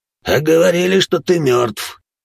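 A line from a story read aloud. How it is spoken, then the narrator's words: Pained snort. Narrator (Russian): хмыкнул наемник, держась за оторванные ребра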